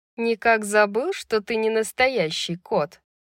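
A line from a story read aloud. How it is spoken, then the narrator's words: Snide tongue click. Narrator (Russian): ехидно цокнула языком Джезиба Рога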